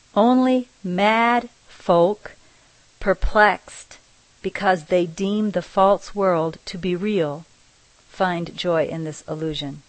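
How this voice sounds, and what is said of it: Strong unfamiliar non-native accent. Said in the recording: “my strange accent”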